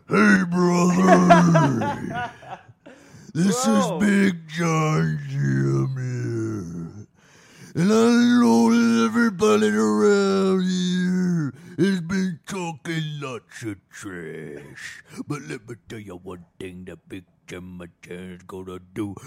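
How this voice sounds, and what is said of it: Imitates a big wrestler father's voice. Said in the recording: “do a impression of your father ... He was a big man. He was 6'8". He was a professional wrestler.”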